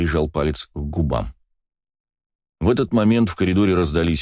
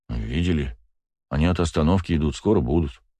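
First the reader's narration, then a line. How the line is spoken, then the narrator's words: Plain. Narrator (Russian): сказал Кирилл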